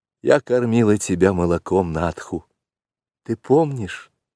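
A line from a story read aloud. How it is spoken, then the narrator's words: Timid question. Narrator (Russian): робко спросила Мессуа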